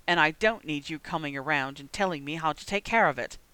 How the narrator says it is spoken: he snarled

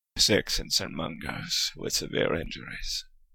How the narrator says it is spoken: grunted Moody

